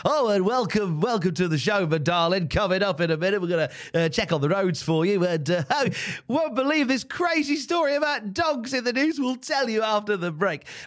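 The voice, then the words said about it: Cliched UK radio presenter voice. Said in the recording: “over in the UK ... the cliche is ... that's the cliched radio voice”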